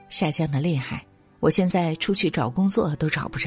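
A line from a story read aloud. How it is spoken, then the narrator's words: Sighing. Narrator (Chinese): 他叹气说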